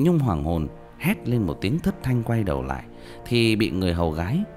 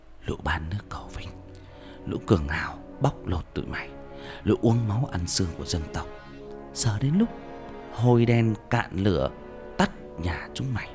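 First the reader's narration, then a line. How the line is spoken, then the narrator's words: Menacing whisper. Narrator (Vietnamese): thì thầm vào tai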